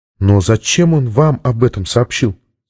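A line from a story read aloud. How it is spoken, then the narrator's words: Plain. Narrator (Russian): спросила Сьюзен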